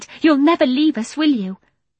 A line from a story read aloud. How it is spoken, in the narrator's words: he cried